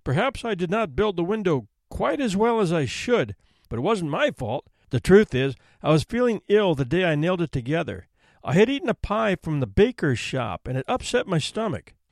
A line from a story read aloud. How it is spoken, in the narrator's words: faltered